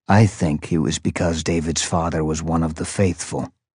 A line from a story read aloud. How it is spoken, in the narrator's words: Prof said softly